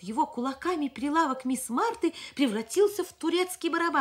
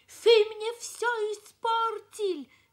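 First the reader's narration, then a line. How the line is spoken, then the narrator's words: Shouting. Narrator (Russian): Кричал он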